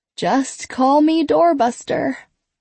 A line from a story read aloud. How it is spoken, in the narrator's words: Kate says with a yawn